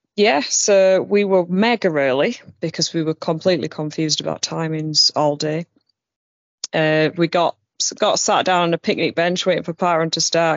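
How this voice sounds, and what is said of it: South Yorkshire accent. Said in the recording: “from Barnsley, South Yorkshire... thought you had a funny accent”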